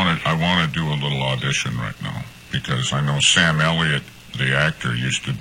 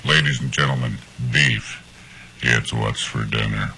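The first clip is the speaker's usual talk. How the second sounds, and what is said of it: Imitates another person's voice. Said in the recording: “You've got the voice for it. ... That's my Sam Elliott imitation.”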